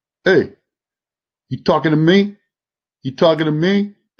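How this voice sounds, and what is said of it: Imitates another person's voice. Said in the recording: “my Robert De Niro imitation.”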